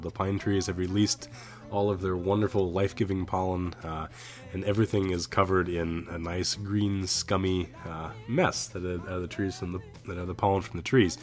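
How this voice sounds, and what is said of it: Stuffy, allergy-affected voice. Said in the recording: “If you may be able to tell from my voice, it is pollen season”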